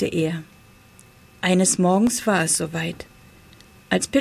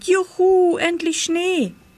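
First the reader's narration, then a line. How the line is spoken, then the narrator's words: Calling out. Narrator (German): rief Pitt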